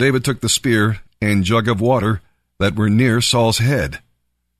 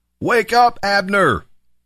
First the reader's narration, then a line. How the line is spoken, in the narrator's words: he shouted down to Abner and Saul